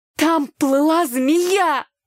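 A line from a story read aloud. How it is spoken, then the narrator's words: Exclaimed. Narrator (Russian): воскликнула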